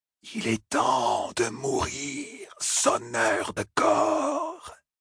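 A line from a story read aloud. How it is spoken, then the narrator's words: Creature hissing. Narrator (French): siffla le myrdral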